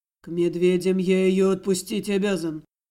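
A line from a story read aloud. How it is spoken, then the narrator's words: Gloomy remark. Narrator (Russian): мрачно заметил Дамир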